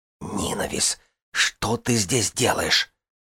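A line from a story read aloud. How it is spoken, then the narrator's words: Hissed. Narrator (Russian): прошипела она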